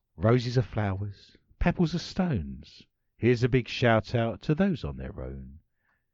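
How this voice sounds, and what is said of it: Dramatic voiceover-style reading voice. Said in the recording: “I'm going to read this out in my best voiceover ... accent.”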